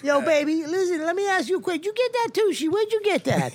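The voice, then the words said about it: Put-on auntie voice, commercial-lady character. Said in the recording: “How's my aunt sound? ... as your aunt ... doing the Popeyes woman voice”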